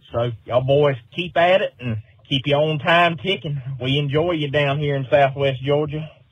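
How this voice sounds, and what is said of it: Southern American accent. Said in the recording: “one of my favorite accents of all time ... that accent. You know, I love a Southern accent.”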